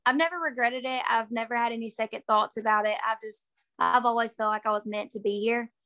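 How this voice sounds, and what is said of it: Southern Alabama accent. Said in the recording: “you may have escaped Alabama ... you got that Reese Witherspoon accent down. So you may have left Alabama, but you brought that accent with you to Mississippi”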